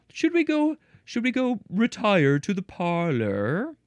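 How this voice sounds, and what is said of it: Bad put-on accent. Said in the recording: “That's a very bad accent.”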